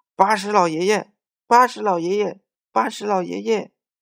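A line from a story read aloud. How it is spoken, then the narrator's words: Calling out three times. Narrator (Chinese): 小二叫了三声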